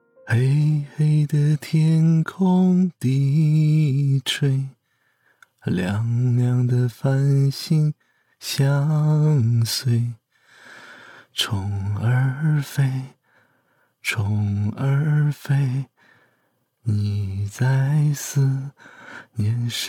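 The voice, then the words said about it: Soft, quiet singing. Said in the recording (Chinese): “嘴里小声的哼唱起一首歌”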